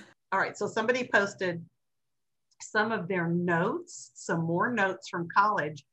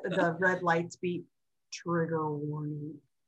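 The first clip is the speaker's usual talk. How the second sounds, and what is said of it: Creepy voice. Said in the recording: “creepy voice”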